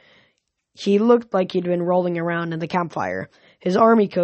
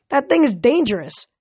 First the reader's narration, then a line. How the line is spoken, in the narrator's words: an Ares girl shouted